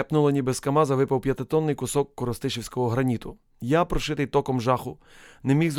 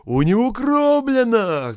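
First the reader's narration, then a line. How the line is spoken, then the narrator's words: Rescuer shouting. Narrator (Ukrainian): закричав один із рятувальників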